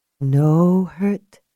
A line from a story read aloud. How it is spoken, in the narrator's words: she said gently